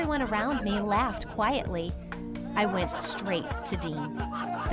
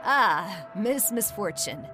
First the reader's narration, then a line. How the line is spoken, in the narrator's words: he chuckled